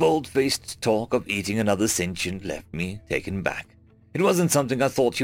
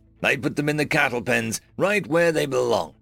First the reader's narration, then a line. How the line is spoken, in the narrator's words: he growled, a malicious gleam in his eyes